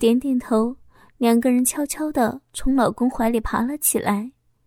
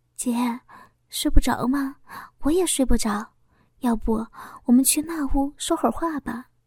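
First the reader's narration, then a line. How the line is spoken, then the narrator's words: Quiet voice. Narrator (Chinese): 小花小声的说道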